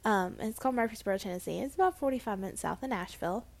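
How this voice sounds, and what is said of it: Southern US accent. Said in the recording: “I'm a southern girl, if you couldn't tell by my accent.”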